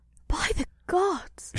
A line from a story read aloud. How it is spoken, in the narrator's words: She murmured